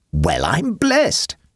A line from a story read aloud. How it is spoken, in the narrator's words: exclaimed the chorus